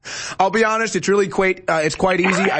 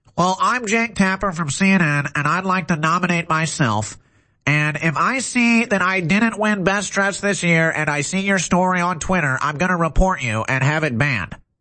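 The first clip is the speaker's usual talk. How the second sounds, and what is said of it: Nasal, whiny imitation of another person. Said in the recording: “best Jake Tapper imitation I've ever heard ... I just hold my nose and I sound all nasally like a little wimp, like a soy boy”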